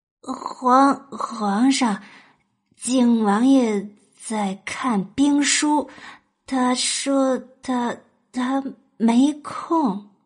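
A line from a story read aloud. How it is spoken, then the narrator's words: Nervous stuttering. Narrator (Chinese): 硬着头皮，声音结巴的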